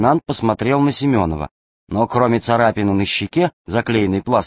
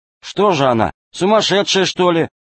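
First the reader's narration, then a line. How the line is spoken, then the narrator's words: Loud question. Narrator (Russian): громко спросил Фима Королев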